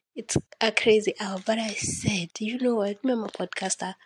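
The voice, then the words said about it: Low, sleepy late-night voice. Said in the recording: “my voice is kind of low or like it's late in the fucking night ... I'm sleepy”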